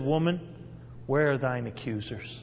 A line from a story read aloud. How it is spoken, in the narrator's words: He tenderly said